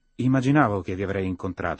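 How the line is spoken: Distracted tone. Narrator (Italian): rispose lei in tono distratto

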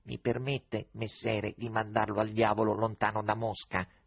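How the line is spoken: Sudden cat's growl. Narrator (Italian): Ringhiò all'improvviso il gatto

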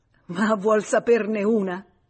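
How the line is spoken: Laughing. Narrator (Italian): disse ridendo

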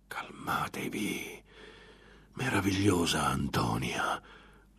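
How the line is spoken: Whispering. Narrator (Italian): sussurrò

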